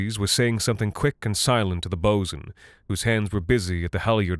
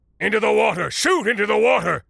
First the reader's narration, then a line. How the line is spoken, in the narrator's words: Mundus was shouting